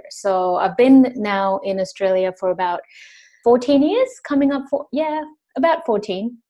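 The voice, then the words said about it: Mixed international English accent. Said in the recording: “you to me have a very mixed accent”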